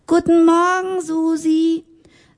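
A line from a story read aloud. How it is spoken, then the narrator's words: Calling across the hall. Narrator (German): Sie ... fröhlich ... rief durch den ganzen Saal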